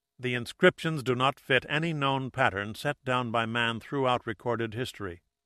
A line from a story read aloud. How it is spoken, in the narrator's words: Pat said in a quiet, authoritative voice